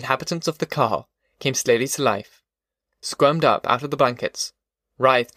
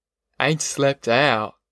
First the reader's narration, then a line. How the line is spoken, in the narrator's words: moaned